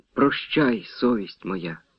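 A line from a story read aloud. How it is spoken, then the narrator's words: Girl's soft smiling whisper. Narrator (Ukrainian): тихо прошепотіла дівчина, ледь усміхнувшись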